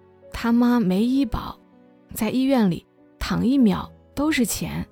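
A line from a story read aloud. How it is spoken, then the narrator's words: Sighing. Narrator (Chinese): 我姐叹气说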